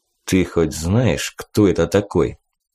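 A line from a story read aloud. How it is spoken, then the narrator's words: Coach speaking quietly. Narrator (Russian): негромко обратился ко мне тренер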